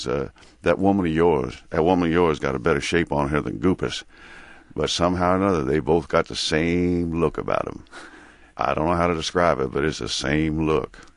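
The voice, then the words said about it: Mississippi accent, Big Daddy voice. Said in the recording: “the accent he uses for Big Daddy ... there's more Mississippi in that than I would have admitted”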